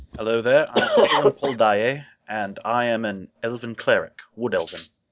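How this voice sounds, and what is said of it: Put-on accent for character. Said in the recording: “With an accent.”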